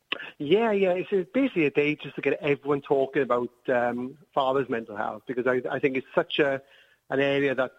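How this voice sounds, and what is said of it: Welsh accent. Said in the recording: “we're speaking to you from South Wales ... I think your accent might give you away just a little bit”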